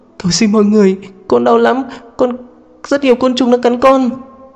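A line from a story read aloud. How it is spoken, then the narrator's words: Sobbing in withdrawal. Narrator (Vietnamese): cơn nghiện của Diệp Lan vẫn chưa dứt, cô vẫn không ngừng nức nở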